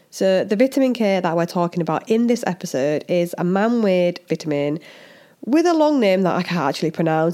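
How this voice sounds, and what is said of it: Strong Hull English accent. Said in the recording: “with this super strong Hull accent”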